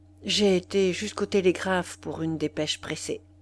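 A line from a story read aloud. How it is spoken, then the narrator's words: Low voice. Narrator (French): Il répondit à voix basse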